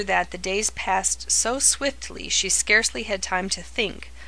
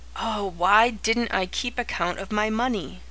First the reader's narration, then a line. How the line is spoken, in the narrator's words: For the thousandth time she groaned